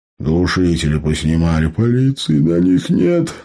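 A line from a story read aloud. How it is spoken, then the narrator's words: Sleepy dismissive gnome. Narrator (Russian): сонно отмахнулся гном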